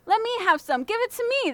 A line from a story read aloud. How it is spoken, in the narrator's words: the stable boys all shouted